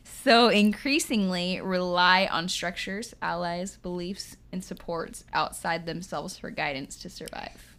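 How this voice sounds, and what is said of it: Midwestern American accent. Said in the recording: “You're saying it with your Midwestern accent.”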